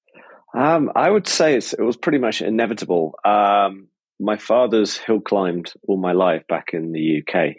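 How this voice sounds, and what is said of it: British accent. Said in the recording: “the accent gives it away a little bit, British”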